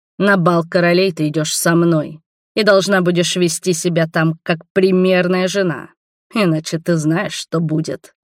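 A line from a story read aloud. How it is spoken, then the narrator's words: Growled. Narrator (Russian): прорычал он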